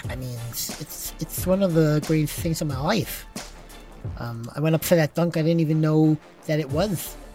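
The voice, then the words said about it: John Starks impression, lispy voice. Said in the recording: “Can you do a John Stark's impression ... You do like a lispy? ... Come on, give me a little John Starks.”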